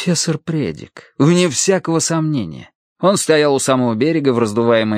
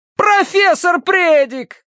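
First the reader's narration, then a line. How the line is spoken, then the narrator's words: Shout. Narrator (Russian): крикнул Терренс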